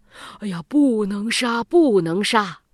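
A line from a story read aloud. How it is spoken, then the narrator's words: Urgent pleading. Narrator (Chinese): 大臣叫左如……赶紧……对天王说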